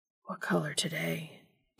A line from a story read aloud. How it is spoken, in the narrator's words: Dean whispered